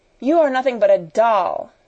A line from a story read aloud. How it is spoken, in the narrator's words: she cried